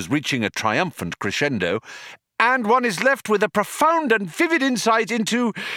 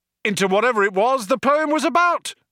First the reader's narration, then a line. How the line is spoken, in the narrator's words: he yelled